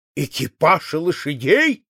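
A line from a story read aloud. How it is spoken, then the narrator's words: Exclaimed. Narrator (Russian): вскрикнул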